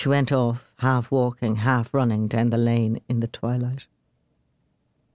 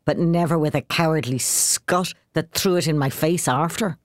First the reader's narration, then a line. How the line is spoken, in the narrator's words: said bitterly